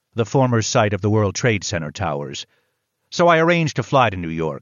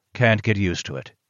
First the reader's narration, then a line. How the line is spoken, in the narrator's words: muttered